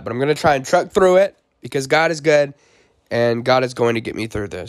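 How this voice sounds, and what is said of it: Strained, rough voice that may crack. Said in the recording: “sorry for my voice. I'm going through the flu right now. I mean, I'm not sick, but my voice is getting pretty bad... apologize if my voice cracks”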